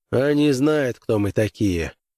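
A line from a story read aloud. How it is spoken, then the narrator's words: Grim smirk. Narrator (Russian): мрачно усмехнулся Крэйвен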